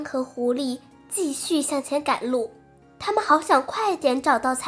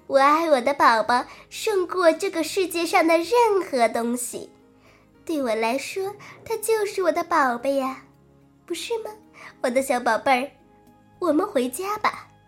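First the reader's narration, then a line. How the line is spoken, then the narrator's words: Proud laughing mother duck. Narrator (Chinese): 鸭妈妈自豪的笑着说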